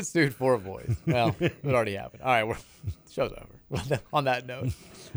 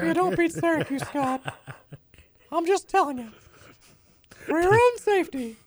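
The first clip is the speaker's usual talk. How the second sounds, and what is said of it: High-pitched Mickey Mouse cartoon voice. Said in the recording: “We're gonna get sued for this voice impersonation ... the Mickey Mouse voice”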